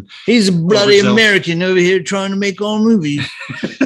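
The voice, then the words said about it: Put-on British accent. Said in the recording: “Apologies to all of our British listeners for not making fun of that. ... That was just my imitation.”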